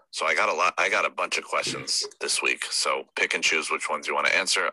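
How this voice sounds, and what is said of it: Quiet, hushed speech. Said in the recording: “if my voice is not very loud, my entire family is sleeping. I'm trying to be quiet.”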